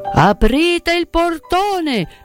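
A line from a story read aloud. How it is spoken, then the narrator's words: Shouting. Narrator (Italian): si sentì gridare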